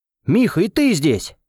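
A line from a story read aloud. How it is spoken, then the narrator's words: Joyful, smiling. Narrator (Russian): радостно улыбнулся я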